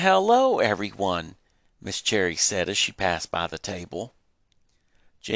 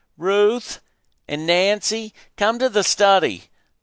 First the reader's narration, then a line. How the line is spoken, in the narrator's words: Mama shouted